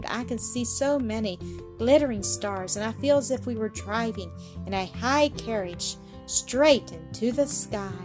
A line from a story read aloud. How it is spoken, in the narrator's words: Claire exclaimed